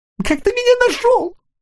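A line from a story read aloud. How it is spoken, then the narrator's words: Sobbing small creature. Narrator (Russian): всхлипнул таракашка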